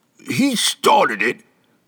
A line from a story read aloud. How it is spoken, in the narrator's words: Baedin grumbled